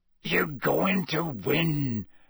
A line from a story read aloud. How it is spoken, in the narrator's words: Hagrid growled